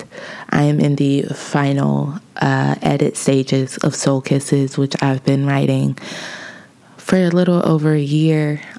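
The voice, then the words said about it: Deep, hoarse, nearly lost voice. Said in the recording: “I sound like a man. I sound like Toni Braxton. ... my voice has been gone, lost, misplaced ... My vocal cords could be”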